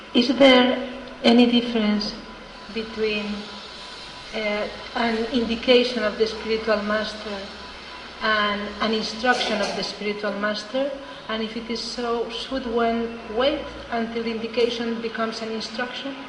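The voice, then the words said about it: Speaks with a noticeable accent. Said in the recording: “I didn't quite understand it because of your accent.”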